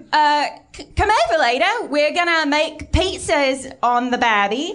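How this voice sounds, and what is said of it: Put-on Australian accent. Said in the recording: “Can I hear your really good Australian accent right now?”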